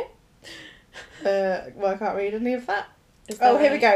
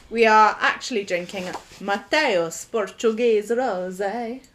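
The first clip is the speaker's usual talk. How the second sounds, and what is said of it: Put-on Italian accent. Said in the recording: “I think that was the same as your Italian accent ... Don't do the accent.”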